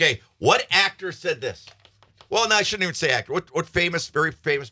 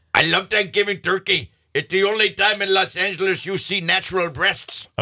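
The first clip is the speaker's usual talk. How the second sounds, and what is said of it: Bad imitation of another person's voice. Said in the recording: “That's a really, really bad impression. ... that's Arnold Schwarzenegger”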